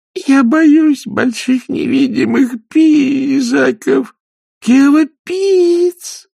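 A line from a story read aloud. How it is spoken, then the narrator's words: Sobbing. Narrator (Russian): рыдала Малда Перл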